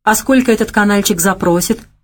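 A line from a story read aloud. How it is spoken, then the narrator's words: Wry snort. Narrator (Russian): хмыкнул Геннадий Константинович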